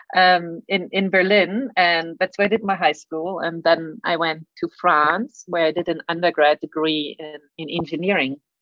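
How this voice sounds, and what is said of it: German accent. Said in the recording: “I grew up in Germany. That's why I have a weird accent.”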